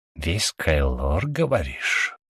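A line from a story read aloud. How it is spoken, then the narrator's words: Hiss. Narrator (Russian): прошипел он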